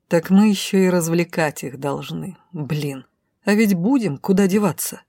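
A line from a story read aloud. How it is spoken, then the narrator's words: Annoyed hiss. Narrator (Russian): Зашипев от досады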